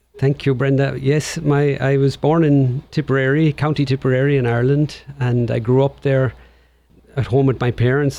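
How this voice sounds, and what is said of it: Irish accent. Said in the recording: “you have that beautiful Irish accent.”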